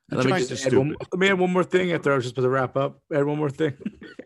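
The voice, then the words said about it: Mocking impression of a co-host. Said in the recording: “It's my impression of you”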